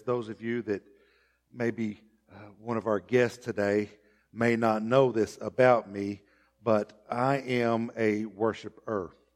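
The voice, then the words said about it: Strained, fading hoarse voice. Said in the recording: “my voice has already begun to leave me”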